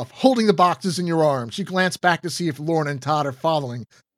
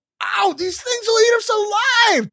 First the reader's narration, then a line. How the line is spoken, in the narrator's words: Todd shouts